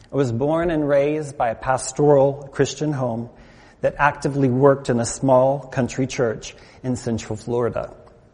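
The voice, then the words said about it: American accent. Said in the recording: “As you can tell from my accent, I'm not from around these parts... having moved from the United States”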